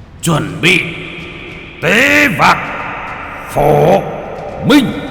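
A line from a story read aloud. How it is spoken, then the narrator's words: Loud shout. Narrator (Vietnamese): quát lên một tiếng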